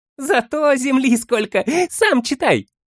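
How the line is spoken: Laughing. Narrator (Russian): Засмеялся хоббит

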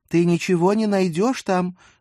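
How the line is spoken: Shout. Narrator (Russian): крикнула она

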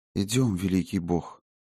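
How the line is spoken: Quiet, timid woman. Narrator (Russian): тихонько сказала валькирия с робостью, непонятной и ей самой

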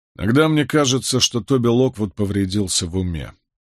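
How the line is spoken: Mutter. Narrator (Russian): пробурчал Майкл

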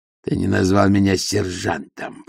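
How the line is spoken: Hissed. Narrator (Russian): прошипел он

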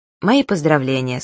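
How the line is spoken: Plain. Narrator (Russian): сказал Абдулла

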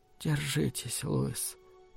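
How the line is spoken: Whispered. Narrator (Russian): прошептала она

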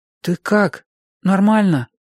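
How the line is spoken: Timid question. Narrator (Russian): робко спросил я ее

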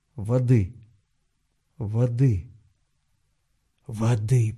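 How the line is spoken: Hoarse croak. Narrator (Russian): прохрипел он

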